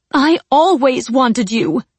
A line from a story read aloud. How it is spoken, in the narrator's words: she said fiercely